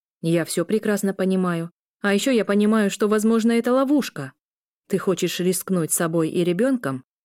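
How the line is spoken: Plain. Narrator (Russian): спросил Виталий

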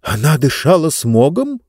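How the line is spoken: Frightened exclamation. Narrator (Russian): испуганно воскликнула Лектория

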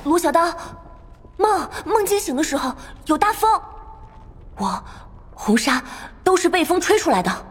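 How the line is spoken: Trembling with excitement. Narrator (Chinese): 穆代激动的声音都抖了

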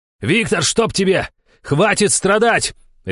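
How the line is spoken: Barking shout. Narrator (Russian): Рявкнул я в сторону Семенова

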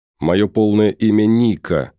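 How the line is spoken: Through gritted teeth. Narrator (Russian): сквозь зубы процедила

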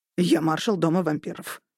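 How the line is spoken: Snapped. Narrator (Russian): огрызнулся лорд Роберт

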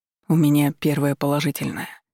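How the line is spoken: Dejected voice. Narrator (Russian): упавшим голосом произнес Валерий

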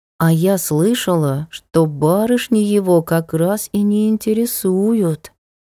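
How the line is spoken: Drawling. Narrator (Russian): протянула Тель

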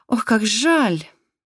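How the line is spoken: Breathy exhale. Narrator (Russian): выдохнула Айрис

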